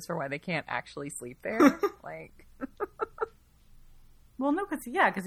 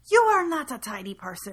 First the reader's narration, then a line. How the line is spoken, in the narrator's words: the innkeeper shouted down at him